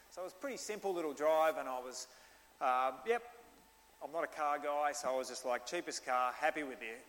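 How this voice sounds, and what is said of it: Australian accent. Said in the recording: “the guy recognises that I'm Australian, and he just thinks my accent's awesome”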